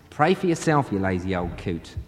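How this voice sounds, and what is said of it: Bad put-on Australian accent. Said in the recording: “it is a bad Australian accent.”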